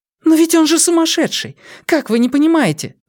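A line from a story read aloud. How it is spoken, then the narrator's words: Exclaiming. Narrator (Russian): воскликнула Вера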